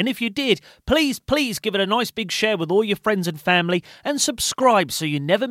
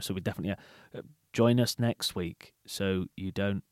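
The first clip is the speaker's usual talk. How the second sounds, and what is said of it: Flat monotone delivery. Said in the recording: “I'm trying to go monotone now”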